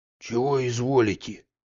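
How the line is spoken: Barely audible hiss. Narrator (Russian): чуть слышно прошипел Захар

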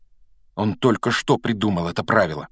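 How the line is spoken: Angry mutter. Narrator (Russian): сердито пробормотал Гарри

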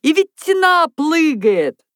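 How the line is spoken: Delighted guffawing. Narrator (Russian): Тотик был в восторге и хохотал

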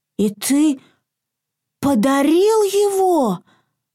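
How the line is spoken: Near-tearful exclamation. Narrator (Russian): Чуть не плача, воскликнул Изюмка

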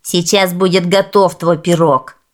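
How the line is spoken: Angry woman grumbling. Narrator (Russian): заворчала в ответ злая женщина

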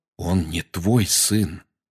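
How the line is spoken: Quiet. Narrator (Russian): тихо сказал Сириус

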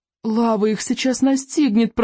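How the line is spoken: Groaned. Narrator (Russian): простонал Рыбьенок

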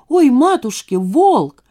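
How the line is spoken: Children shrieking. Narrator (Russian): Дети взвизгнули

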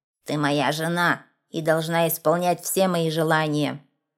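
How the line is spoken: Plain. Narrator (Russian): сказал горбун

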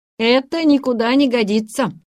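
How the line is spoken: Sharp. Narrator (Russian): резко проговорил он

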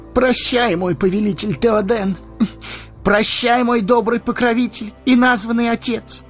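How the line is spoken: Exclaimed. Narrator (Russian): воскликнул

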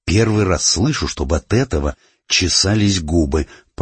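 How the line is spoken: Suspicious mutter. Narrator (Russian): пробормотал Миша, подозрительно

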